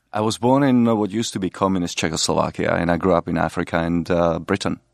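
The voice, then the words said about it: Mellifluous foreign accent. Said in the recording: “the mellifluous accent of our guest”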